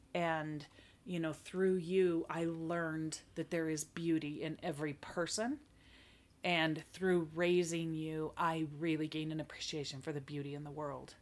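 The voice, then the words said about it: Tearful, emotional voice. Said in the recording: “I'm already tearing up. You can see that. You can probably hear it in my voice.”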